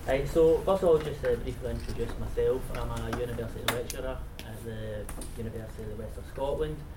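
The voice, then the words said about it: Strong Glaswegian accent. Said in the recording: “apologise for the strong Glaswegian accent”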